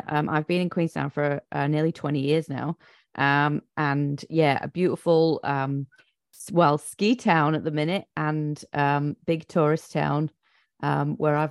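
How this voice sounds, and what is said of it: Non-New Zealand accent. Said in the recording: “as you can hear by my accent, I am not, I wasn't born here”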